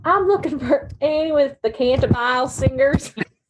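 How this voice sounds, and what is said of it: Deep thick Southern accent. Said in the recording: “deep, thick Southern accent.”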